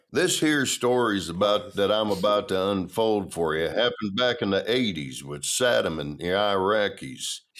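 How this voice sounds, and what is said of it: Sam Elliott impression. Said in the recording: “a really good Sam Elliott impression”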